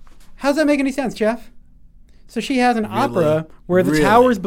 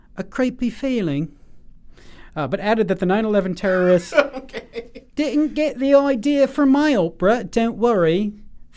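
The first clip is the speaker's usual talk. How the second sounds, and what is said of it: Imitating Margaret Atwood's accent. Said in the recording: “I'm gonna read her quote in her accent.”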